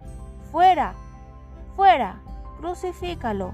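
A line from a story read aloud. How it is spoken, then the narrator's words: Crowd shouting. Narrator (Spanish): Ellos gritaron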